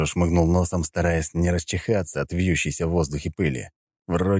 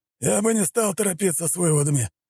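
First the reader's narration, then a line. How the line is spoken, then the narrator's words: Muffled voice. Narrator (Russian): глухо произнес снегирь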